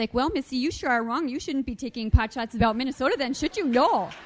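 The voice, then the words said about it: Put-on Minnesota accent. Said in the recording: “I can do a pretty good accent when I feel like it... Minnesotan”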